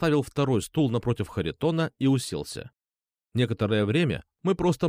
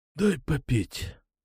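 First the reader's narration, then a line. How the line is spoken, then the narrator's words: Hoarse rasp. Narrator (Russian): просипел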